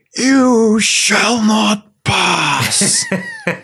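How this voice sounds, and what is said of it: Impression of Gandalf. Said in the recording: “That is Gandalf from ... Lord of the Rings. That's really good.”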